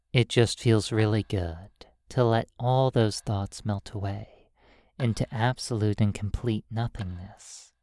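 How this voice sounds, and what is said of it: Hypnotic, irresistible voice. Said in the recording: “notice how irresistibly hypnotic my voice is. ... My voice is just as irresistible as a hypnotic pocket watch.”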